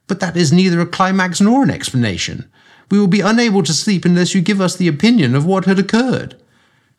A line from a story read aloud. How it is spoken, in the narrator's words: One of them exclaimed